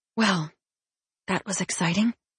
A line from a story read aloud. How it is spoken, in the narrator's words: Laura said quietly